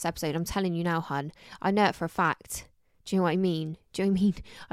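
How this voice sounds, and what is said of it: Somerset English accent. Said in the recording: “I feel like my Somerset accent's really coming out recently... since you moved home, your accent.”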